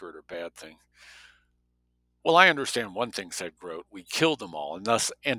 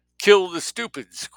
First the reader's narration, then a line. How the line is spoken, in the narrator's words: Greta exclaimed